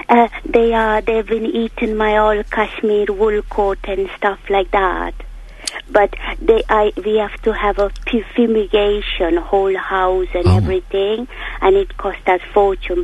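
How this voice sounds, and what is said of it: Speaks with a noticeable accent. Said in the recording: “What a delightful accent you've got.”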